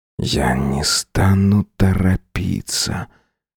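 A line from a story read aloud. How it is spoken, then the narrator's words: Passionate whisper in ear. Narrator (Russian): жарко прошептал он мне на ухо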